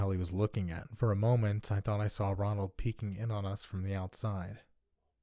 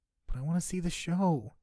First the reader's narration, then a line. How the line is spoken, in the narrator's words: he whined